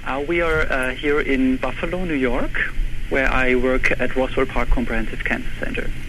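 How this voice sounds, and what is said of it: German accent in English. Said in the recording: “We detect a bit of an accent... I think even in radio you will hear or see my accent... I'm actually originally from Germany”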